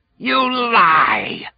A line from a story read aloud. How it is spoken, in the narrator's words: screamed